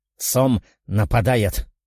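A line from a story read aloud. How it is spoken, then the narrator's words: Owl's mutter. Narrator (Russian): пробормотала сова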